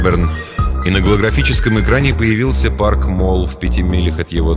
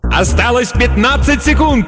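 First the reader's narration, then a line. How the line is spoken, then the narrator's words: Announcer yelling. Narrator (Russian): завопил другой диктор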